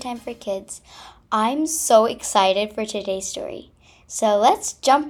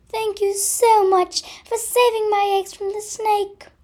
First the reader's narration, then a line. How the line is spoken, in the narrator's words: cried Miss Mother Robin